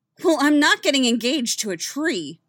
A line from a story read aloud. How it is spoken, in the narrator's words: Winona snapped